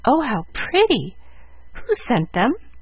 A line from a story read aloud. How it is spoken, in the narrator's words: asked Jill eagerly